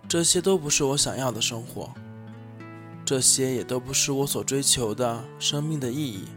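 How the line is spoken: Sighing. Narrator (Chinese): 兔子先生叹了口气

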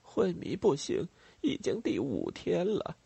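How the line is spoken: Sighing reply. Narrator (Chinese): 沙威里奇回答，叹了口气

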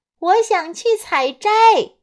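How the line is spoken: Loud child's voice. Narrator (Chinese): 小女孩就大声说

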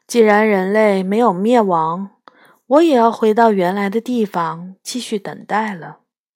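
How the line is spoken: Girl sighing. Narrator (Chinese): 独角女孩叹了一口气说

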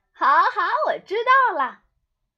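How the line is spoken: Shouting in unison. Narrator (Chinese): 他们异口同声地冲阿奇喊

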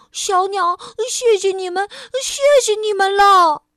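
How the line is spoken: Breathless. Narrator (Chinese): 菲儿气喘吁吁地说

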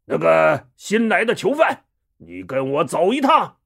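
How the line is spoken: Throat-clearing, pompous loud. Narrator (Chinese): 戴宗清了清嗓子，装模作样的大声说

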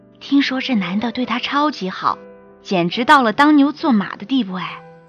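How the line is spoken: Whispering girl. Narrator (Chinese): 同桌的女生悄声俯身下来对我说

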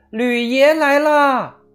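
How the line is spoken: Loud shout. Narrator (Chinese): 他高喊道

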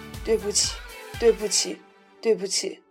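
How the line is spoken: Crying, repeating. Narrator (Chinese): 哭倒在地，一直在重复

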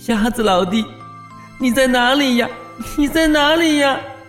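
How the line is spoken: Crying and calling out. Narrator (Chinese): 蚯蚓一边哭一边呼唤

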